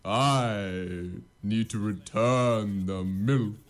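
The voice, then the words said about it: Character voice imitating Aslan. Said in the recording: “You're stuck in the Aslan accent ... What's Aslan's accent?”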